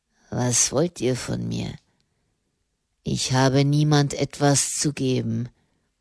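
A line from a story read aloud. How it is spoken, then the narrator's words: Murmur. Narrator (German): murmelte er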